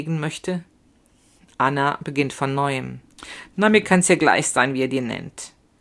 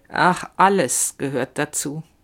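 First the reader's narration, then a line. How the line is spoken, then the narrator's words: Slow speech. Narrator (German): sagt sie langsam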